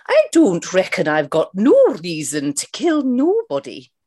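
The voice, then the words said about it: Mrs. Doubtfire impression, Scottish accent. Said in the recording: “do this in the style of Mrs. Doubtfire ... the Mrs. Doubtfire accent”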